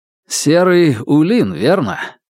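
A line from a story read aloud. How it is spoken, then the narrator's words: Laughing. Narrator (Russian): Незнакомец рассмеялся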